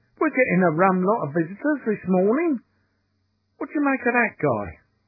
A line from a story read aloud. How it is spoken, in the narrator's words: Quick, snapped Sexton Blake